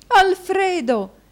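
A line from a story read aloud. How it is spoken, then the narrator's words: Wife exclaimed. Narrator (Italian): esclamò la moglie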